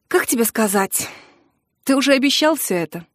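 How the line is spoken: Heavy sigh. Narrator (Russian): тяжело вздохнул

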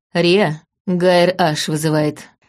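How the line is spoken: Gloomy. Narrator (Russian): мрачно произнес Дан

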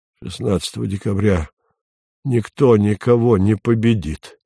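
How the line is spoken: Through gritted teeth. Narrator (Russian): сказал Вадим сквозь зубы

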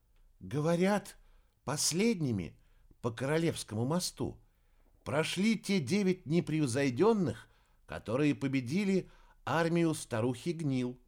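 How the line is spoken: Quiet. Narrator (Russian): негромко произнесла Ная

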